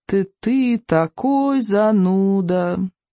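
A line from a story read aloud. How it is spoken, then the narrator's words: Glum grumble. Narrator (Russian): уныло проворчал он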